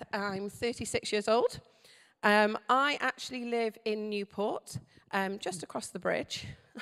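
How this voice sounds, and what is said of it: Welsh accent. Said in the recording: “my accent may have betrayed me already and told you that I'm Welsh”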